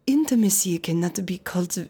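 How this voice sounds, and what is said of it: Sensual French-accented Esther Perel impression. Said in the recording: “Esther Perel, she has a very lovely, kind of so sensual French. Voice. ... very French, like a dark chocolate melting on your tongue ... Can you do an impression of her? ... it was a good impression.”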